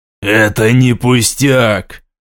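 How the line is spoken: Angry, emotionally charged. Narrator (Russian): Зло отозвался он, накачанный эмоциями и желанием немедленного действия

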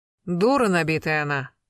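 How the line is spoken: Curt, spiteful. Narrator (Russian): отрезала злобно Раиса

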